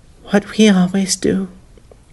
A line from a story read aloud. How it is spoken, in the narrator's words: she whispered